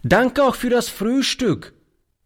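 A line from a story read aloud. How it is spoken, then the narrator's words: Called while leaving. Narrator (German): rief er beim Hinausgehen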